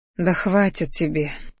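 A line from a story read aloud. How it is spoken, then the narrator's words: Sigh. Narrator (Russian): вздохнула я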